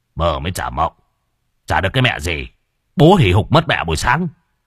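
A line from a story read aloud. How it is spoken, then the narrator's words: Irritated. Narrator (Vietnamese): khuôn mặt cáu gắt, nói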